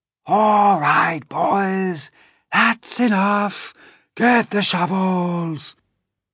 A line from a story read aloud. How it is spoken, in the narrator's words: one of the cloud men, heard him shouting